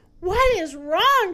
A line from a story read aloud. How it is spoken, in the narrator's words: cried the hippopotamus